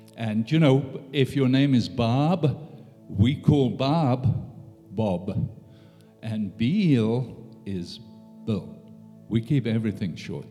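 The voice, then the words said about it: South African English accent. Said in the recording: “I'm from South Africa ... that English accent”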